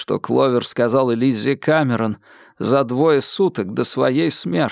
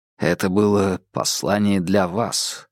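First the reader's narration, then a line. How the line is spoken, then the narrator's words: Quiet remark. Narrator (Russian): тихо заметил Холмс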